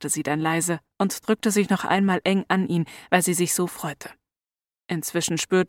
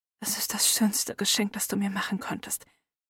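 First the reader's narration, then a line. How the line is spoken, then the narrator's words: Soft whisper. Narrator (German): flüsterte Hermine leise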